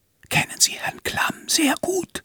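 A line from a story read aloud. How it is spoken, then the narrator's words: Whispering. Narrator (German): flüsternd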